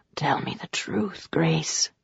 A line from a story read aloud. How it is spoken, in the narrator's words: breathed in her ear